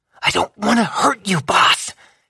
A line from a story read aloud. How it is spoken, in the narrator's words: she hissed